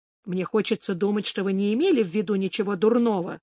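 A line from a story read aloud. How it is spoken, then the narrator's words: Plain. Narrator (Russian): сказал он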